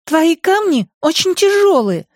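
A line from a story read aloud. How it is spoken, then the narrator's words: Offended girl. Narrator (Russian): обиженно заявила девочка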